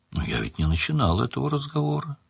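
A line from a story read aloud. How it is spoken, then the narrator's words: Quiet speech. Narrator (Russian): тихо сказал Анрах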